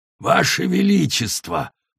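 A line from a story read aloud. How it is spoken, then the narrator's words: Prisoner's croak. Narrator (Russian): прохрипел пленник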